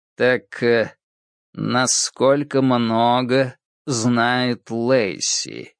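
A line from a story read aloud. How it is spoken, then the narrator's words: Slow repetition. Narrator (Russian): медленно повторил он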